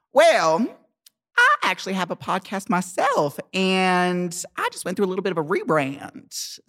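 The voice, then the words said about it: Put-on Southern American accent. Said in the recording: “I gotta really do the Southern accent.”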